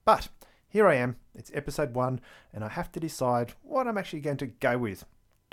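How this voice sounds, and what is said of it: Australian accent. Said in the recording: “my accent gives away the fact that I am actually from Australia, from the state of Victoria”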